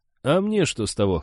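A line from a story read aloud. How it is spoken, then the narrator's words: Skeptical snort. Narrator (Russian): хмыкнул Гард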